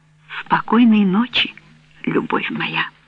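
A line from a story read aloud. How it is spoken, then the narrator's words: Whispered. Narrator (Russian): Она прошептала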